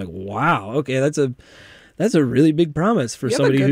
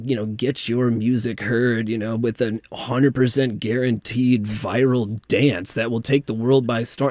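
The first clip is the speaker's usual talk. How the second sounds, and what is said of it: Announcer-style radio voice. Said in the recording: “You have a good radio voice for that.”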